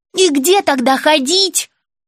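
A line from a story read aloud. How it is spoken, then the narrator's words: Young girl shouting. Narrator (Russian): выкрикнула девочка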